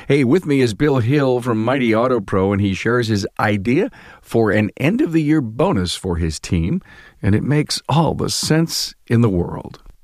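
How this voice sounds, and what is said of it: Voice rough from a cold. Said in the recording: “Sorry for the voice, got a little bit of a cold.”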